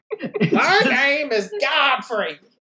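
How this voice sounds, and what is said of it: Imitates another person's voice. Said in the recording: “doing an impression of Gilbert Godfrey”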